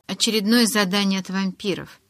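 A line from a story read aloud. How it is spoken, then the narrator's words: Grumbling. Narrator (Russian): проворчала Ли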